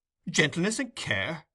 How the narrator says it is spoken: exclaimed the doctor

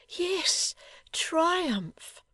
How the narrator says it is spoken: she cried with her whole heart and soul in her earnest voice and gushing tears

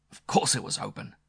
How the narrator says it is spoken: answered angrily

